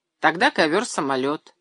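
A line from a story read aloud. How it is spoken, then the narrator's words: Snorting. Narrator (Russian): хмыкнул Миша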